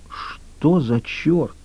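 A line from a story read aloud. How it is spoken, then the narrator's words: Whispered. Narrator (Russian): прошептала она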